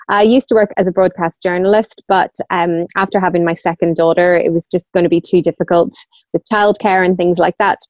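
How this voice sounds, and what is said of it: Northern Irish accent. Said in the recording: “I'm originally from Northern Ireland, as you can probably hear from my accent”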